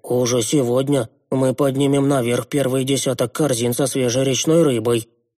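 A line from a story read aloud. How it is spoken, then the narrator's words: Booming voice. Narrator (Russian): прогудел молчавший до этого Куин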